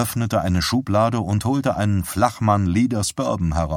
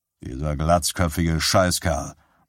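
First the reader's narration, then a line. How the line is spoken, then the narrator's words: Muttered. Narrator (German): murmelte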